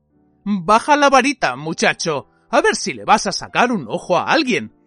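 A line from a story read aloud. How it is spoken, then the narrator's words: Quiet grumpy voice. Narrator (Spanish): dijo una voz queda y gruñona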